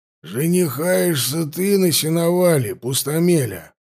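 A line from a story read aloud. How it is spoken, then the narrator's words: Grumble, Cossack. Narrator (Russian): буркнул казак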